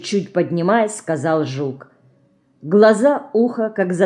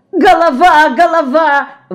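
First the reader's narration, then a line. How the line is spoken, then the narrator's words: Frightened scream. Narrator (Russian): в испуге закричала Динка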